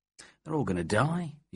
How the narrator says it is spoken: murmured

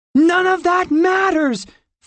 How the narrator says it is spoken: Fort said, wanting to scream in frustration

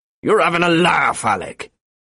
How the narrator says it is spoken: said Mick crossly

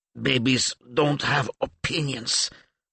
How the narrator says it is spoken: Adelia replied through gritted teeth

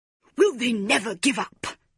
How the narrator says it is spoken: growled Mrs

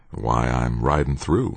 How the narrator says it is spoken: said quietly

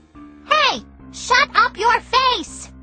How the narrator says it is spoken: hollered

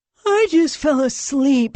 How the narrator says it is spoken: Leon moaned

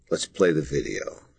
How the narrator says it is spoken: she whispered

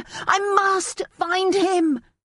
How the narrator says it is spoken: Sparrow cried

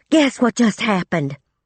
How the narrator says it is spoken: Breathing fast and hard, gasping out

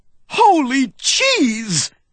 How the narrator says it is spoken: I cried

